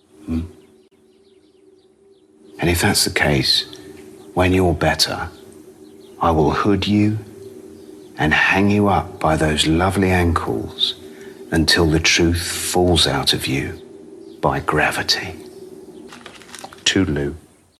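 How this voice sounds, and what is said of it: Sinister British-accented delivery. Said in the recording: “How's that for sinister aplomb? ... a British accent”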